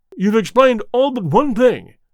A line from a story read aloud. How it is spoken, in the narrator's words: cried the colonel